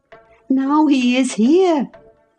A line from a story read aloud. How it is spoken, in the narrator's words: I exclaimed